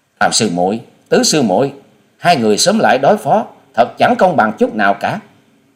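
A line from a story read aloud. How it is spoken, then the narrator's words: Anxious urgent shout. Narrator (Vietnamese): trong lòng của nàng lo lắng muôn phần, vội hét lên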